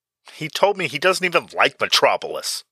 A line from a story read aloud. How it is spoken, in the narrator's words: Batman blurted out loud